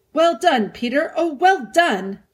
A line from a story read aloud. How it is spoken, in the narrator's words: shouted Edmund